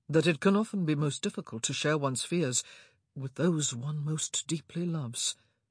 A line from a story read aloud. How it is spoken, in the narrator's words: he said again, his voice purposely even and subdued